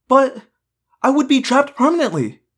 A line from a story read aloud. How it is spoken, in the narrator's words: I cried